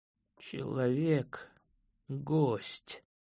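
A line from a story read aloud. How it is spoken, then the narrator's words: Weak trembling old voice. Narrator (Russian): слабым дрожащим голосом произнес дряхлый мартыш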